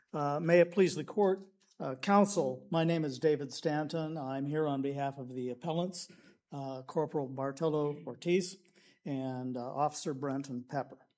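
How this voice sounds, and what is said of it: Hoarse, raspy voice. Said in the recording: “I'm suffering from a little laryngitis today”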